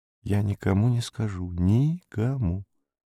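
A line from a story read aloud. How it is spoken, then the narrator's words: Whispered. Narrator (Russian): прошептал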